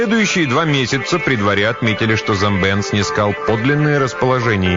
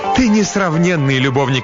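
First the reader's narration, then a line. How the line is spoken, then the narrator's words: Exclaimed. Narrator (Russian): воскликнула Насака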